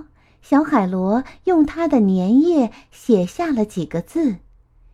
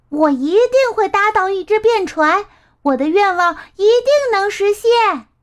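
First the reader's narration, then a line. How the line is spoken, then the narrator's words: Loud, bursting out. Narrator (Chinese): 他忍不住大声喊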